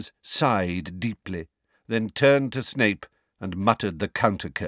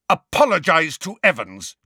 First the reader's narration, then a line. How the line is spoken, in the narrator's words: James roared at Snape